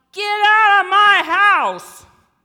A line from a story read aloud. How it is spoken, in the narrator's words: I screamed so loud that I bruised my vocal cords